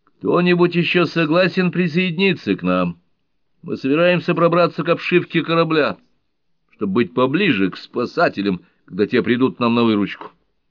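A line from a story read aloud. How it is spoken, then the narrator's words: Shouting across hall. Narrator (Russian): Скотт крикнул в дальний конец зала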